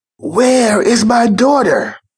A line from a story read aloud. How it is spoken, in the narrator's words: yelled the mother in a raging cry